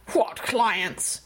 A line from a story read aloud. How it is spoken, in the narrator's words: snorted Piggott